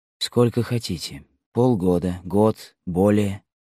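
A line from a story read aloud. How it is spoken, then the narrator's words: Happy whisper. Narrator (Russian): прошептал Рамбо, уже счастливый тем, что его сразу не прогнали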